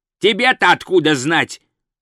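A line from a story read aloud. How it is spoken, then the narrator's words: Growled. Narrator (Russian): зарычал он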